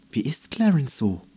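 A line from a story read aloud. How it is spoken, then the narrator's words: Whisper. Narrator (German): flüsterte Andi in Meckermähnes Ohr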